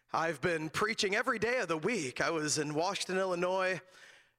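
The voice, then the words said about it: Rough, raspy voice. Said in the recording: “apologize for my voice. It is a little rough this morning, a little raspy. ... was just losing my voice”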